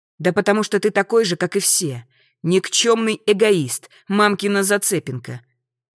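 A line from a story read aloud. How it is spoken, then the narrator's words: Loud, clipped syllables. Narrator (Russian): Чеканит громко, чуть ли не по слогам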